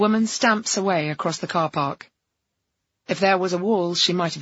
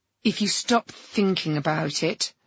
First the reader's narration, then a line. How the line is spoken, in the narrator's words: she snarls